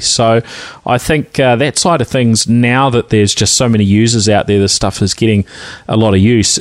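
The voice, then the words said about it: New Zealand accent. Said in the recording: “my Kiwi twang”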